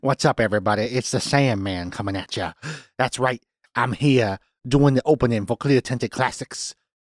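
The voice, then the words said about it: Adam Sandler impression, Mitch Hedberg-like. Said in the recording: “Why do I kind of sound like Mitch Hedberg all of a sudden? ... my impression of you going to complete shit ... I sound like I do in Billy Madison.”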